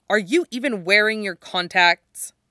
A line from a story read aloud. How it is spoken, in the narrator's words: his father snaps